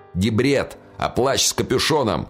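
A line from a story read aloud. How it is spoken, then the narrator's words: Shouted. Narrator (Russian): выкрикнул Девлет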